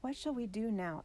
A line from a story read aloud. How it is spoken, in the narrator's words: asked David's mother anxiously